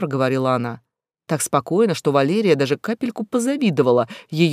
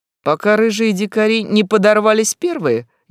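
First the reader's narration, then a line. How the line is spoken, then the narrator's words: Snide clarification. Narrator (Russian): ехидно уточнил Ба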